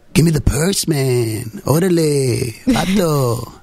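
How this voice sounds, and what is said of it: Exaggerated stereotypical Latino accent. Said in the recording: “a little bit more Latino ... this accent”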